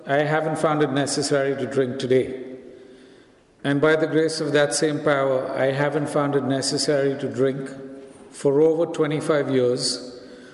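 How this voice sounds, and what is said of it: Indian English accent. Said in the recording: “the flyer did say I'm from India, and I guess you figured out from my accent by now that I'm not from around here”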